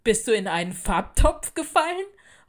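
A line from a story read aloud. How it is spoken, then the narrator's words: Laughing loudly. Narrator (German): sie lachten laut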